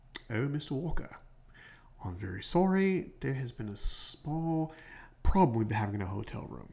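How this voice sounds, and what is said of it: Put-on accent, poorly done. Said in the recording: “I'm horrible at accents.”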